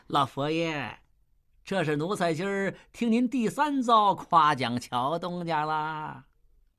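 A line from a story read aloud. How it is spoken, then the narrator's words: Giggling. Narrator (Chinese): 李莲英 嘻嘻笑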